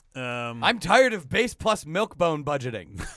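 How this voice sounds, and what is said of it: Imitates another person's voice. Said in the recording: “That's my Paul Ryan impression.”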